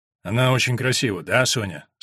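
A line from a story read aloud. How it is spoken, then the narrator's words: Strange tone. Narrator (Russian): странным тоном произнес Вульф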